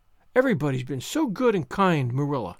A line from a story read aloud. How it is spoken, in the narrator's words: sighed Anne happily